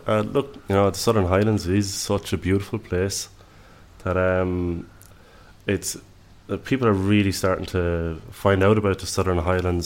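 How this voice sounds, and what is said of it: Irish accent. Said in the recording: “the accent will tell you straight away I'm Irish”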